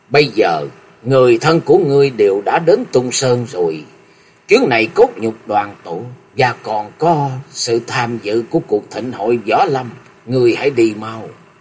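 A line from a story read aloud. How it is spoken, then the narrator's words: Sad but smiling. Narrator (Vietnamese): Bóng mặt của ông bỗng trở nên buồn bã, nhưng vẫn mỉm cười nói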